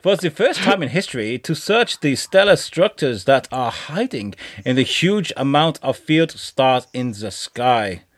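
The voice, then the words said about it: Put-on German accent. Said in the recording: “He's German. ... Very good accent, though.”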